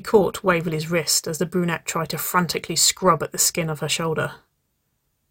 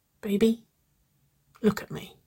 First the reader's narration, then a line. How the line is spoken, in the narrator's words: she whispered